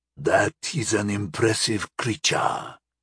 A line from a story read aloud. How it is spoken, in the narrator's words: the raspy voice said in a thickly accented tone